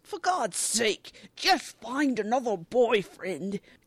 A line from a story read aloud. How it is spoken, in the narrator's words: Rupert grumbles